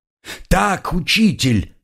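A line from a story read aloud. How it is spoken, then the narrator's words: Crowd yelling again. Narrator (Russian): снова завопила толпа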